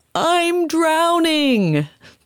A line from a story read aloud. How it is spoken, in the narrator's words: she shouts back